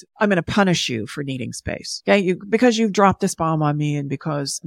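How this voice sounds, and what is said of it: Sarcastic mocking voice. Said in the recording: “I'm sorry, I'm doing this voice,... because I'm just being a little sarcastic.”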